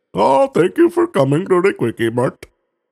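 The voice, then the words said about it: Imitated Indian accent. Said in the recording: “Accents. There you go. Like Indians, right?”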